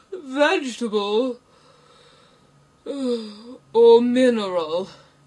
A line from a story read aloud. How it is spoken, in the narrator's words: he said, yawning at every other word